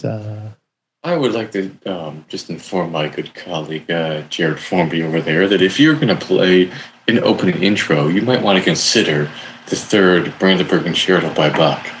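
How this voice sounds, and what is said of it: Calm public-radio announcer voice. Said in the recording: “NPR voice”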